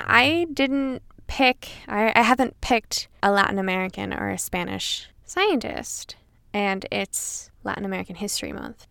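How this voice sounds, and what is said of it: Latin American accent. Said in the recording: “you will notice by my dictation and my accent that she's definitely not Caucasian”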